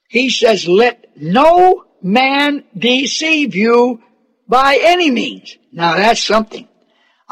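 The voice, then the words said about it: Very slow, deliberate, smooth speech. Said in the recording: “I'm talking very slow and very deliberate, aren't I not? Don't it seem like I'm very smooth right now?”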